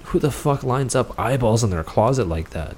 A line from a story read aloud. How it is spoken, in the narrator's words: Chris mumbled